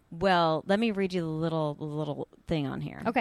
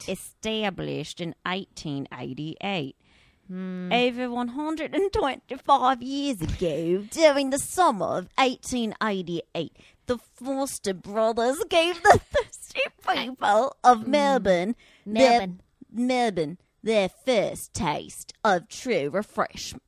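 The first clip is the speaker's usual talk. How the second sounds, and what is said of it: Put-on Australian accent. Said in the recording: “Does that sound Australian?”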